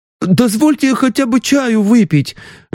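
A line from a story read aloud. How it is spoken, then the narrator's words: Pleading. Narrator (Russian): взмолился оппонент Саратовцева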